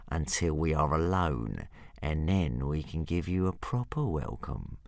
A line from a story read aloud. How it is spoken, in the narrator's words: purred Hook Fang menacingly